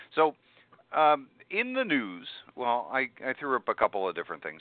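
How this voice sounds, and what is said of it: TV announcer voice. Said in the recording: “put on my announcer voice, my my TV voice”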